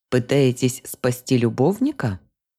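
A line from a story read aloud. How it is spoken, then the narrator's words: Laughing. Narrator (Russian): Рассмеялась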